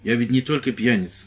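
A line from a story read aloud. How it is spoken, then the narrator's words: Stern. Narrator (Russian): сказал строго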